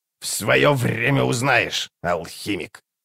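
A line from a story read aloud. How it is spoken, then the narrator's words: Old woman's grumble. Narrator (Russian): проворчала Карга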